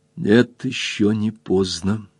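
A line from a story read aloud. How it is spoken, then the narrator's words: Quiet, relentless. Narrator (Russian): сказала тихо и неумолимо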